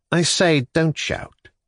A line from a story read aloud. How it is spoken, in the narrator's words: Nikolai Vsyevolodovitch said earnestly